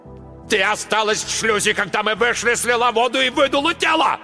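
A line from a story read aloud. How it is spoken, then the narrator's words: Yelling. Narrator (Russian): орал Марк Йоган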